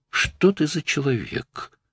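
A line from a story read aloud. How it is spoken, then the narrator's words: Very quiet, barely audible. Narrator (Russian): произнесла так тихо, что едва расслышал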